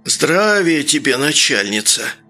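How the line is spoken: Wheezing old man. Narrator (Russian): просипел старик

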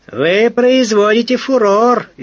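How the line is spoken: Cheerful shout. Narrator (Russian): весело крикнул Доронин

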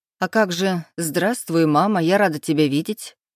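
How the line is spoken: Snorting. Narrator (Russian): хмыкнула матушка

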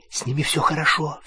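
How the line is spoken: Whispering. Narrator (Russian): зашептала она

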